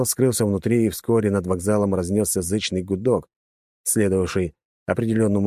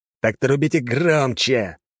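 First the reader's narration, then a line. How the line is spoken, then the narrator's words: Impatient growl. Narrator (Russian): зарычал на него начинающий терять терпение Голдстейн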